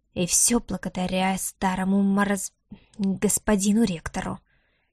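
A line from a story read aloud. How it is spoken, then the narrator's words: Quiet muttering under breath. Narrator (Russian): тихо пробурчал себе под нос некромант, так и не решившись вслух ругать человека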